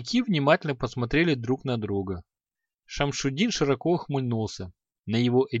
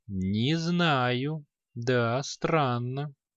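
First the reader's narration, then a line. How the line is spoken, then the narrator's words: Slow reply. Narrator (Russian): Ученик мага медленно ответил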